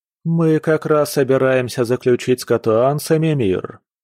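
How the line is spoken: Plain. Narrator (Russian): сказал Вэйлинь

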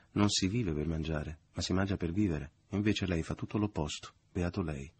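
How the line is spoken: Ironic, exalted voice. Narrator (Italian): la madre dichiarando con voce ironica e esaltata

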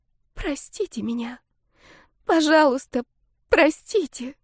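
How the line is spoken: Tearful sobbing whisper. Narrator (Russian): Шайна всхлипнула, словно хотела разрыдаться, и прошептала

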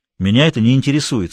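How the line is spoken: Plain. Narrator (Russian): сказал Тимохин

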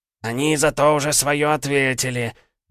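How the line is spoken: Sudden angry hiss. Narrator (Russian): неожиданно зло прошипел дух

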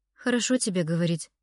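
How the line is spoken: Sighing. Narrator (Russian): вновь вздохнула она

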